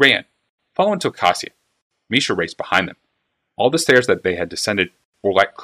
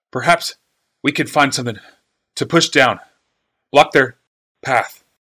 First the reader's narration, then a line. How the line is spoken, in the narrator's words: wheezed Urza